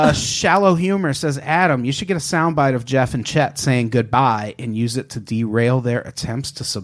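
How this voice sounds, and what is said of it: Usual voice. Nothing is said of it.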